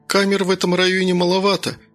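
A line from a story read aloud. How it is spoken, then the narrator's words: Sigh. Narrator (Russian): вздохнула следователь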